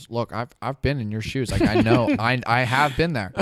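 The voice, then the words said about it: Imitates another person's voice. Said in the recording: “that Nick impression”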